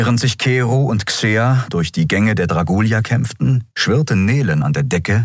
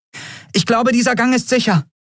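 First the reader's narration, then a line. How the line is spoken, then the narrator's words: Called out. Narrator (German): rief sie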